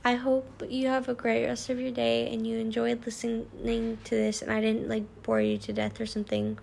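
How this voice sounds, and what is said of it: Weird, sore-throated voice. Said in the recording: “sorry for my voice sounding weird. I have, like, a sore throat.”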